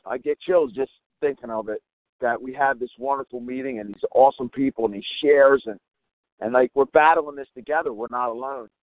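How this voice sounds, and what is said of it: Choked-up, emotional voice. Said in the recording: “I'm getting a little choked up.”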